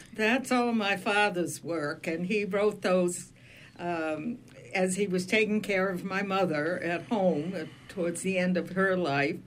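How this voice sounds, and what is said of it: Flat Maine accent. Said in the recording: “My word, do I have a flat Maine accent.”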